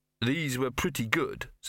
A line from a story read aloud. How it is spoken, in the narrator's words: said Victor